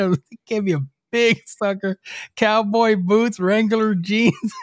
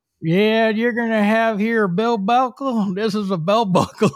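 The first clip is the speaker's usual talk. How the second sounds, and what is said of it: Imitated Southern Texan accent. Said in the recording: “he had that Southern, you know, Texan accent.”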